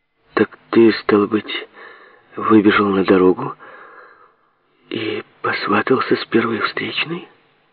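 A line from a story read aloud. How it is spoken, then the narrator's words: Calm female question. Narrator (Russian): спросила Шарлотта все тем же спокойным тоном, каким начала разговор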